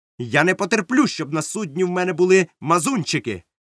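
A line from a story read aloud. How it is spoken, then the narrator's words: Loud. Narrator (Ukrainian): голосно сказав докторові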